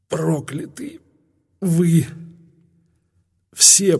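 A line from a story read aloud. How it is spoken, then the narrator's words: Hoarse rasp. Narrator (Russian): прохрипела Хатшепсут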